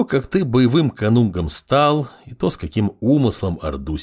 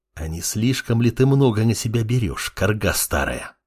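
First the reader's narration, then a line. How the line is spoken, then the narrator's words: Furious hiss. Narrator (Russian): Бешено прошипел парень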